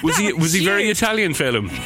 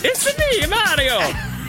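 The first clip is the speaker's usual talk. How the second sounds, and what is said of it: Mario-style exaggerated Italian voice. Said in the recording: “Why did the fella from Barcelona all of a sudden sound like one of the Mario brothers? ... You did do a Mario”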